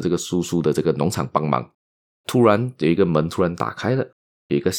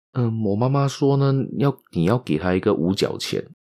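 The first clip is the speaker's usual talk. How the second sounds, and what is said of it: Very quiet, timid little girl's voice. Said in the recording (Chinese): “这个小女孩就非常小声的、非常胆怯的呢，就说道”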